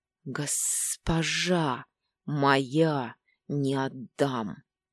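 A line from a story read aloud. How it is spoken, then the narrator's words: Angry growl. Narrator (Russian): в рассерженном рычании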